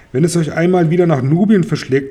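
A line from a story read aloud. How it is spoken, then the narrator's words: Plain. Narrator (German): sagt Kashta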